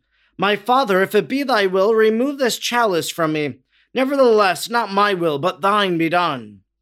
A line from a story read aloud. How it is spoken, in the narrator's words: Exhausted and trembling, he exclaimed